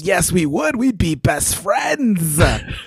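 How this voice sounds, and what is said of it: Raspy cartoon character voice. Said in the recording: “I feel like I'm so slowly drifting into Snagglepuss ... raspy.”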